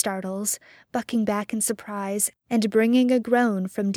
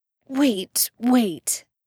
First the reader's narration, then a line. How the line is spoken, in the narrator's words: Sam gasps, struggling back, trying to recapture his control